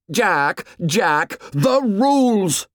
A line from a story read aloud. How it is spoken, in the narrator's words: shouted Ralph